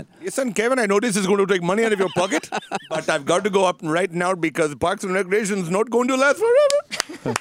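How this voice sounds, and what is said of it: Put-on Indian accent. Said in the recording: “Do your Indian accent.”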